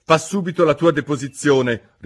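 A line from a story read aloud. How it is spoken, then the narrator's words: Angry king repeating. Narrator (Italian): ripeté il re con voce collerica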